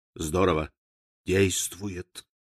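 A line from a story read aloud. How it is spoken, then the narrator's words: Quiet whisper. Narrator (Russian): не удержался и тихо прошептал соседу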